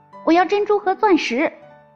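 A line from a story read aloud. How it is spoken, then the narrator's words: Shouting. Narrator (Chinese): 第二个叫道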